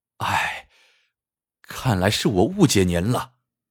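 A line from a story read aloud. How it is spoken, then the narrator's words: Sighing. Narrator (Chinese): 唐杰叹了一口气说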